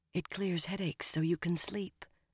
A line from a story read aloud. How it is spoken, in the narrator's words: Egwene said just as softly, and nearly as grimly